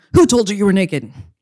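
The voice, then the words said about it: Angry cop voice. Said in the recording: “this voice of like an angry cop”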